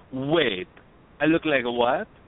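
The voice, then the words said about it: Failed French accent, sounds Italian. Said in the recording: “I don't know why she's Italian. I can't do a French accent.”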